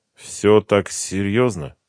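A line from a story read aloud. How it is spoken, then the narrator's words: Forced, strained. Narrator (Russian): выдавил я из себя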